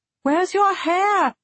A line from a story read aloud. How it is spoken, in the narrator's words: She shouted